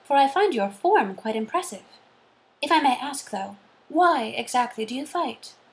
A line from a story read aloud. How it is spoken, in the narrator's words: said Jane kindly